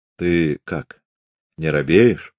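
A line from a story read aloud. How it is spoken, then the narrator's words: Nervous whisper. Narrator (Russian): шепотом справился у Пантелея Прокофьевича побледневший атаман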